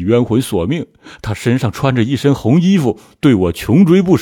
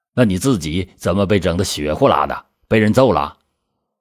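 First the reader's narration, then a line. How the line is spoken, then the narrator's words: Plain. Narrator (Chinese): 梁兆平说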